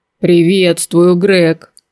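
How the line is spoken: Loud booming big man. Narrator (Russian): громким зычным голосом произнес здоровяк

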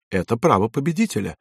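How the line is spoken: Calm. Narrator (Russian): спокойно ответил Пеккало

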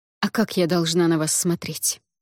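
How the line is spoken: Curt, clipped. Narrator (Russian): отрывисто бросила девушка

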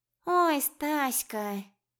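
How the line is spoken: Sighing. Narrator (Russian): вздохнула Мурмизулия

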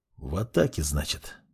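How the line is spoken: Muttered. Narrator (Russian): пробормотал он

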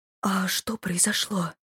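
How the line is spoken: Whisper. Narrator (Russian): прошептала

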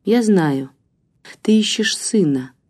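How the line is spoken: Quiet speech. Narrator (Russian): тихо заговорила Марина

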